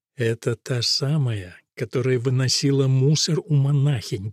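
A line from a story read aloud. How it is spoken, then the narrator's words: Whisper. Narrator (Russian): прошептал тяжеловес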